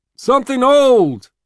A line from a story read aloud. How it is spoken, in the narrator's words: Gus shouts